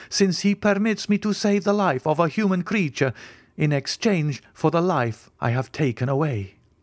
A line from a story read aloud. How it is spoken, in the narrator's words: I cried